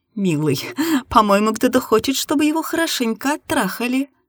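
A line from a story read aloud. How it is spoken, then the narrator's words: Laughing. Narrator (Russian): рассмеялась я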